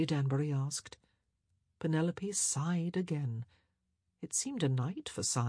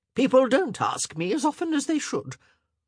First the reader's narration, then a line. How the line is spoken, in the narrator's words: she added sharply